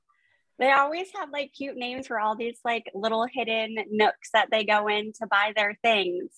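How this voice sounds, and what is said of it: Noticeable regional accent. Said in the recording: “I like your accent ... I'm from Florida”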